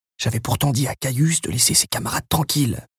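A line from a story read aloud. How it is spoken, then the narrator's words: Grumpy grumble. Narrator (French): grommela Mucius avec humeur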